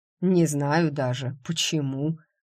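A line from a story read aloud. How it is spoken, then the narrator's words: Amused snort. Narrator (Russian): хмыкнул Громила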